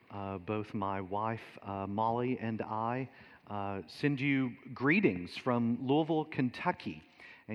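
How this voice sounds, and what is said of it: Deep Southern American accent. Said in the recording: “you certainly don't sound like an Englishman ... originally from Kentucky. So that's obviously the more deep Southern accent”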